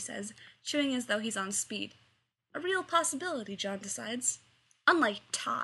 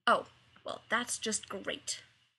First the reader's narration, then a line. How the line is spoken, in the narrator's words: Rodney mutters